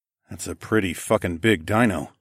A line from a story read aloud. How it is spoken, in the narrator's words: I muttered